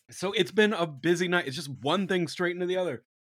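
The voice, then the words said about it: Hoarse, strained voice. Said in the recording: “losing my voice a little bit ... from the screaming”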